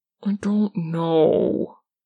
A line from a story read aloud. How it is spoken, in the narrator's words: Dean whines